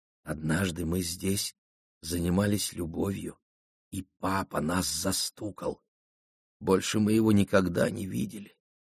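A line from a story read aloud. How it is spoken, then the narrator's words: Whisper. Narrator (Russian): Жена шепнула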